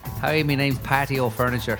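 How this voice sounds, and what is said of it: Put-on Irish accent. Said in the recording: “me Irish accent”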